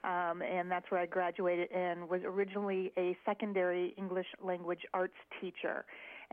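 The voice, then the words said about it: Minnesota accent. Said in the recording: “Originally from Minnesota, so it's nice to hear the accent. My accent will blend right in”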